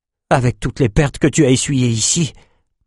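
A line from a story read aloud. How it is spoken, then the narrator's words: Muttered. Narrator (French): marmonna Bannon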